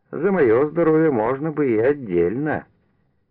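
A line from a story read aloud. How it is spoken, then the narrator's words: Laughing. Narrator (Russian): Настасья засмеялась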